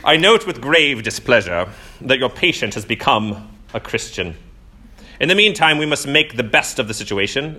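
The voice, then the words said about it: Bad imitation British accent. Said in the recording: “I'm going to do my bad British accent.”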